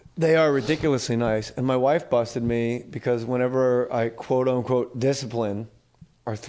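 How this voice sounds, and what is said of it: Usual voice. Nothing is said of it.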